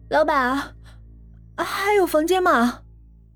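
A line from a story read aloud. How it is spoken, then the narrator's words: Shivering, trembling question. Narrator (Chinese): 浑身湿漉漉的走进头盔旅店，声音哆哆嗦嗦的问了一句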